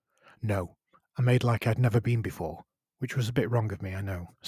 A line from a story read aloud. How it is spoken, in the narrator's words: said Isabella